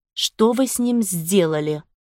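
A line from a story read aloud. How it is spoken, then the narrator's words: Strained, choked with rage. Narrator (Russian): Удалось мне выдавить из себя, несмотря на то, что горло у меня сдавило от ярости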